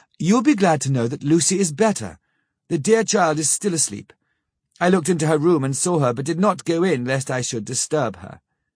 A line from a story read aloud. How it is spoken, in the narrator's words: She greeted us warmly and said